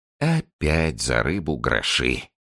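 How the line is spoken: Heavy weary sigh. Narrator (Russian): тяжело вздохнул доктор

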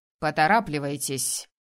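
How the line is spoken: Loud demand. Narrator (Russian): громко потребовал он

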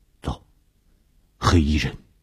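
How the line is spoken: Low voice. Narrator (Chinese): 低声地说

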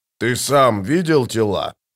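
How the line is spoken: Booming. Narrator (Russian): прогудел барон

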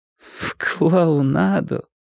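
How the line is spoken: Repeating, laughing. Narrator (Russian): повторила она и снова засмеялась

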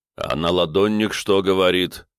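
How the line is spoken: Deep bass, bearded man. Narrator (Russian): пробасил бородатый

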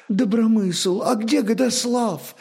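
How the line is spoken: Bewildered question. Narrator (Russian): спросила растерянно княгиня

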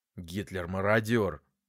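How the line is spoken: Cold, through gritted teeth. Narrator (Russian): холодно процедил сквозь зубы

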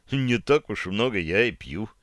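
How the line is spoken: Gloomy remark. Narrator (Russian): мрачно заметил я

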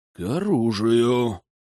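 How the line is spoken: Through gritted teeth. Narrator (Russian): сквозь зубы процедил Дювалье

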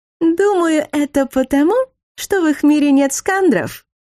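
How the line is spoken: Giggling from upstairs. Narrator (Russian): хихикнула из квартиры над нами математичка Талинка Вейзалита

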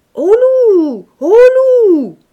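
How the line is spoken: Boys shouting. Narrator (French): criaient les gamins

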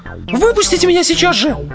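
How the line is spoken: Shrieked. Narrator (Russian): взвизгнула Джоан

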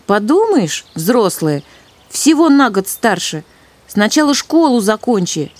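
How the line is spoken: Snapping retort. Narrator (Russian): огрызнулся он

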